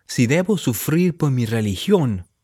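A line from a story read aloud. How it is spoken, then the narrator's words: Plain. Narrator (Spanish): dijo Edward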